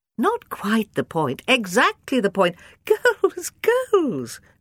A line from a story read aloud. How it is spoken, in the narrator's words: cries Rosie, laughing